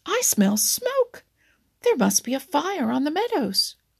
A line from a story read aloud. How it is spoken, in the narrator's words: cried Farmer Brown